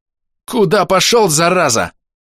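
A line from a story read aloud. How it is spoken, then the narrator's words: Frightened yelling. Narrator (Russian): Скорее от страха, чем от гнева, заорал я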